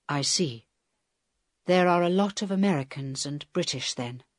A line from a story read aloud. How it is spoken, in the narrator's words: said Helen quietly